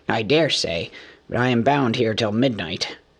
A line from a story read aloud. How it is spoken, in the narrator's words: grumbled the fat dwarf